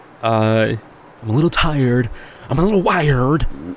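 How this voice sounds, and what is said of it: Imitates another person's voice. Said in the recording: “Nicolas Cage. That's a pretty good impression.”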